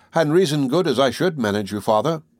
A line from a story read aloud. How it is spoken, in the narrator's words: said Priscilla